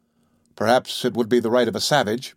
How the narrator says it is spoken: replied

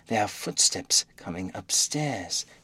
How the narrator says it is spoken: he said in a low voice

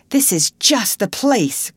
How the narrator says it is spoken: cried the manager

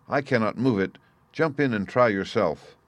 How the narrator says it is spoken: he cried

